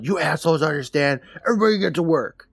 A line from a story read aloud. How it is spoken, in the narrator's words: He looks around the room yelling